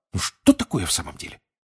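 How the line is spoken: Indignant snorting mutter. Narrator (Russian): Гермиона, негодующе фыркнув, пробормотав

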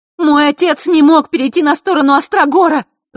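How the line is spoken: Hotly shouted. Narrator (Russian): запальчиво выкрикнула Василиса

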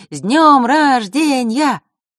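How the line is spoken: Shouted in chorus. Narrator (Russian): ребята прокричали ему хором

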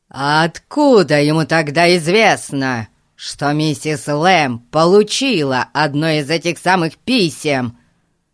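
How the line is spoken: Furious shout. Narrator (Russian): В бешенстве закричал мистер Гун

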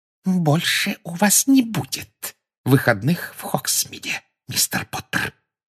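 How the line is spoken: Whispered. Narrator (Russian): прошептала она

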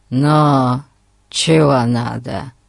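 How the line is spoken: Grumbling. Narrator (Russian): проворчал он

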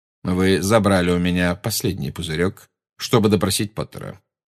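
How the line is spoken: Cold. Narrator (Russian): сказал Снег, холодно глядя на нее

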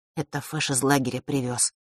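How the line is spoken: Quiet. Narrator (Russian): тихо произнес Ник

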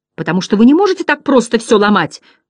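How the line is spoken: Shouting. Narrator (Russian): кричал Бастиан

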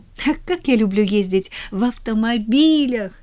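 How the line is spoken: Delighted exclamation. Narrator (Russian): воскликнула от восторга

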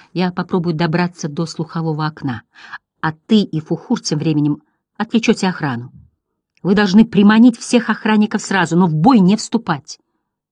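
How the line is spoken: Thoughtful whisper. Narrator (Russian): Бастиан задумался, потом прошептал

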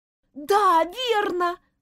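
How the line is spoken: Shouting. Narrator (Russian): выкрикнула Дженни

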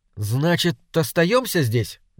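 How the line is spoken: Uncertain question. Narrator (Russian): неуверенно спросил Алька

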